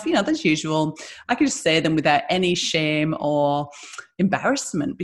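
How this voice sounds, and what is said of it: Northeast English accent. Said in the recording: “I'm from the Northeast, so my accent”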